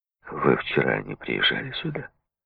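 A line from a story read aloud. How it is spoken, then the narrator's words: Quiet question. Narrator (Russian): тихо спросил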